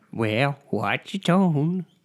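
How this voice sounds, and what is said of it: Imitates another person's voice. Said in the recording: “my Reagan impression”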